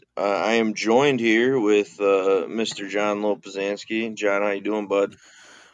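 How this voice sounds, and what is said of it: Sick, under-the-weather voice. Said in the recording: “excuse my voice a little bit today. I'm slightly under the weather ... that's why I sound like I'm dead.”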